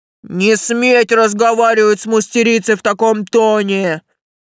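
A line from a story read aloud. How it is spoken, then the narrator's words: Barked. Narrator (Russian): рявкнул Тесл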